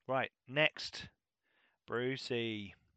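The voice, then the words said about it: Slight put-on Australian accent. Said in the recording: “I do that with a bit of an Aussie accent”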